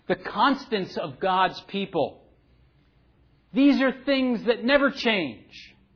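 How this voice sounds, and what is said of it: New Jersey accent. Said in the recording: “my Jersey accent is a little muddled at times”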